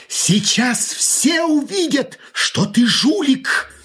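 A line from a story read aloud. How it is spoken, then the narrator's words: Sudden exclamation, rogue. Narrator (Russian): вдруг плут воскликнул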